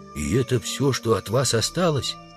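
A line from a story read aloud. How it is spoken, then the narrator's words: Whispered question. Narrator (Russian): Удалов спросил шепотом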